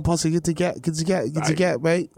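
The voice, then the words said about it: Mock British cartoon-character accent. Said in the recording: “I don't know that accent. I don't even know what character that was. That was like Peppa Pig's ethnic friend.”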